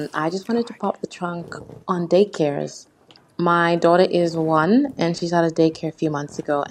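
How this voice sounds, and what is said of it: Australian accent. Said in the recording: “I'm a fan from Australia, if you can't hear by the accent. ... We can hear it.”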